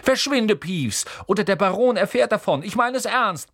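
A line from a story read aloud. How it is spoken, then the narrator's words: Barking sharply. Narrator (German): bellte Percy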